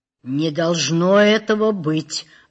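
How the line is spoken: Muffled forced ventriloquist voice. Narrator (Russian): глухо, как чревовещатель, выжил из себя начальник тюрьмы

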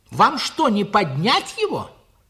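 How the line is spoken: Worried shout. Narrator (Russian): крикнул я, боясь, как бы не оборвался заплечный ремень

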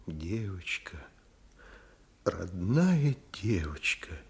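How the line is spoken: Quiet. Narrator (Russian): негромко выговорила Вера Никандровна

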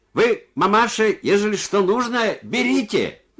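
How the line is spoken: Shouting. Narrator (Russian): глухой крикнул ей

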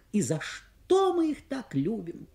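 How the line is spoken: Young woman exclaiming. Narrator (Russian): воскликнула молодая женщина

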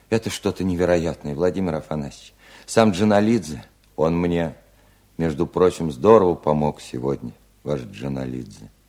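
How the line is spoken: Quiet interruption. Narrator (Russian): тихо прервал Устименко

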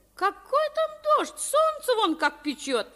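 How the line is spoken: Cheerful. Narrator (Russian): весело ответила Авдотья Павловна

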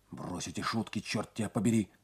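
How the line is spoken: Whispering. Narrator (Russian): зашептал он

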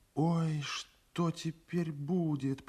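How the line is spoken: Whispered. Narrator (Russian): прошептала Тамара

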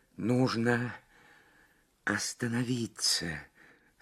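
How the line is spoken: Strained whisper. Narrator (Russian): с трудом прошептала Лабискви

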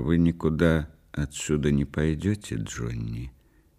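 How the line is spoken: Quiet. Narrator (Russian): тихо сказала

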